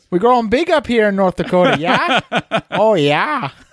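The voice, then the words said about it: Poor put-on Fargo accent. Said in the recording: “a little Fargo accent ... We can't do accents. ... Mine's awful, too.”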